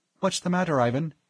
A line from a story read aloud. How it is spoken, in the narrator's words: Sachiko asked anxiously